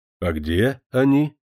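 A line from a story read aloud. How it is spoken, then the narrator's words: Snort. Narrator (Russian): хмыкнул Лаврухин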